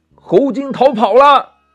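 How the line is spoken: Panicked shouting in unison. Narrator (Chinese): 这六个兄弟慌慌张张的齐声叫道

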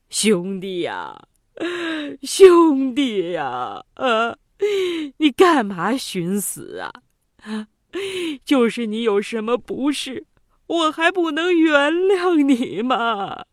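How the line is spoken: Weeping. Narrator (Chinese): 哭得

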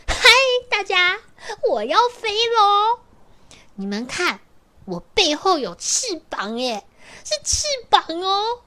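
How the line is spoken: Very loud excited. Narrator (Chinese): 他很大声、很大声的告诉他的朋友们，他跟大家说

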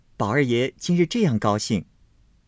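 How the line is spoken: Smiling. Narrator (Chinese): 紫娟笑说道

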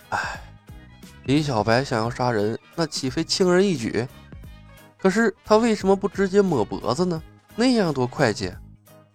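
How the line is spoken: Sighing. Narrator (Chinese): 又有人叹道

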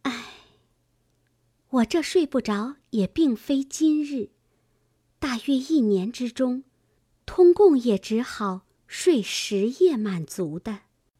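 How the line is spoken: Sighing. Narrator (Chinese): 黛玉叹道

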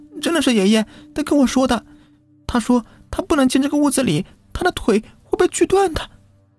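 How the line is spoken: Crying little boy. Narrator (Chinese): 小男孩哭着说道

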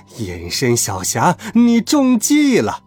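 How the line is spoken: Loud mocking laughter. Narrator (Chinese): 仰头大笑

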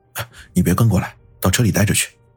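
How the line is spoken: Low stern rebuke. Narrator (Chinese): 云峰却低声喝道

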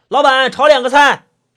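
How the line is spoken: Shouted toward kitchen. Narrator (Chinese): 那红衣服少年 朝厨房里喊着

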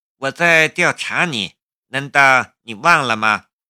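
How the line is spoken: Wry bitter smile. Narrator (Chinese): 夏雷苦笑了一下

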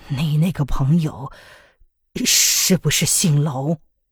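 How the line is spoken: Trembling question. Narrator (Chinese): 庄道人声音微颤的问

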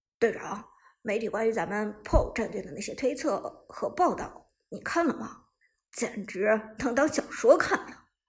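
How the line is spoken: Laughing. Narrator (Chinese): 旺财在一旁笑道

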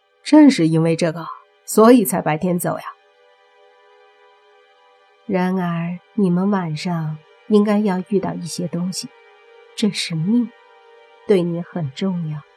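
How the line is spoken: Smiling. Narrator (Chinese): 莫凡笑了笑，说

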